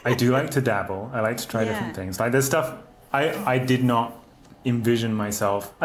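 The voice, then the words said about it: British accent. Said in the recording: “There's a bit of British accent privilege going on there.”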